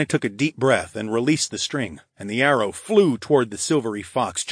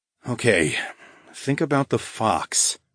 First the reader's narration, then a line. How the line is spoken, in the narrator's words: I muttered under my breath